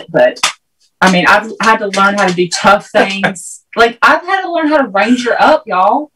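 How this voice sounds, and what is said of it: Southern US accent. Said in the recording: “your accent or your Southern charm there”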